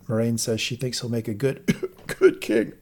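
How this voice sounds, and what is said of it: Choked-up emotional voice. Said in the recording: “I got choked up there ... Difficult to get that out.”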